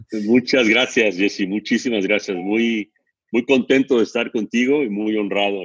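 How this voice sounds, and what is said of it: Deep, polished announcer voice. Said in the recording (Spanish): “voz de locutor”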